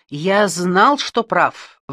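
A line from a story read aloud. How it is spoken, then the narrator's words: Exclaiming. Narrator (Russian): воскликнул Альберг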